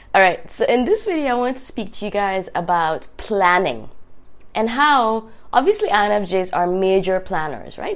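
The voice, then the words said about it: Raspy, sick-sounding voice. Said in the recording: “I have a little bit of a cold, a little bit of a fever ... My raspy voice.”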